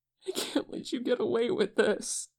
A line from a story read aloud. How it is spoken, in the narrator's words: Hoseok cries